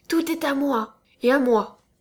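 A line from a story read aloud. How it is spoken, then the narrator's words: Curt, dry. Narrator (French): lui répondis-je d'un ton sec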